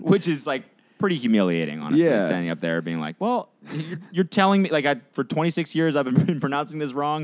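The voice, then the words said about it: American accent. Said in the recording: “you have an American accent”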